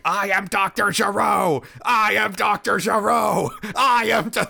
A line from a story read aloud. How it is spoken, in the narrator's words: the supercomputer that is left just starts screaming